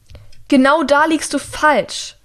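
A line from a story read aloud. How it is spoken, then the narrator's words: Shouting over an alarm. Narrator (German): schreit sie über den Alarm hinweg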